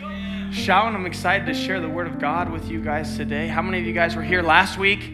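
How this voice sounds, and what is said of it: Slightly raspy voice. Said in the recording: “my voice is a little raspy today from all the shouting”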